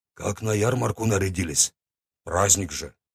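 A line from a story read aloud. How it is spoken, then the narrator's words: Grumbling. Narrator (Russian): буркнул я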